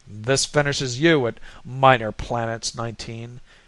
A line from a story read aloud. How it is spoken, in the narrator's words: growled Wynn